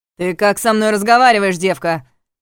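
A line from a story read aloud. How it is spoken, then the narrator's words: Barking. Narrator (Russian): рявкнул он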